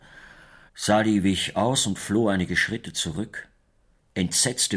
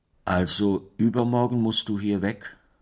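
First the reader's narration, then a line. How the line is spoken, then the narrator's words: Plain. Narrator (German): sagte Sali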